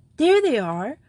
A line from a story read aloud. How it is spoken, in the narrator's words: cried Joey